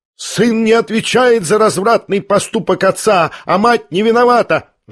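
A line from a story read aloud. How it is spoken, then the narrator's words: Heated shriek. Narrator (Russian): жаром провизжал Ипполит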